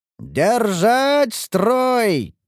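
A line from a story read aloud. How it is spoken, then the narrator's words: Shouting. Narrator (Russian): кричал командир защитников Ингарда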